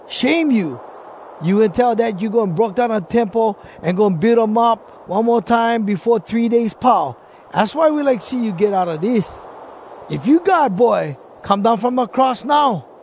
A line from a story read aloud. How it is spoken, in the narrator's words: some guys yell